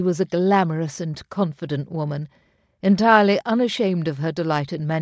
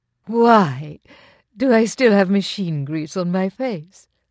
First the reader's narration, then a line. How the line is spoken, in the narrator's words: Lady Tremaine laughed